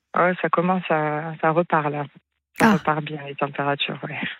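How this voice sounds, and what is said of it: Slight southwestern French accent. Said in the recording (French): “vous avez un petit accent du sud-ouest? ... je suis de Toulouse”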